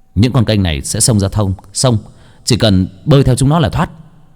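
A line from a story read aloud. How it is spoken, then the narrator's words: Urgent shout. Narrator (Vietnamese): Bác Cổ quát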